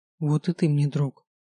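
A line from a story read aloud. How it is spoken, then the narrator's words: Tired. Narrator (Russian): так же устало сказал он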